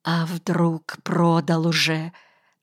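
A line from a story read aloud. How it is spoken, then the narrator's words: Breaking whisper. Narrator (Russian): срывающимся шепотом спросил я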